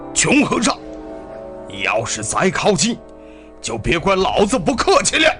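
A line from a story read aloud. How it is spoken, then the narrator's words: Shouting. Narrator (Chinese): 那个家伙喊道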